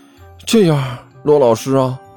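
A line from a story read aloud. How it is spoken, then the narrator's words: Regretful sigh. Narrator (Chinese): 齐剑满脸遗憾的叹了口气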